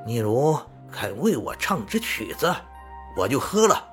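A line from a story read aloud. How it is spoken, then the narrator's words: Laughing. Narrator (Chinese): 丈夫便笑着说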